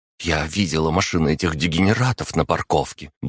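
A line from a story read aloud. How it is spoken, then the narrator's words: Quick, girl. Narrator (Russian): быстро произнесла девушка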